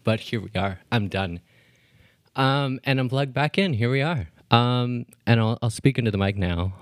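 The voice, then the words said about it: Out of breath, breathless speech. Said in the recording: “I'm fully out of breath”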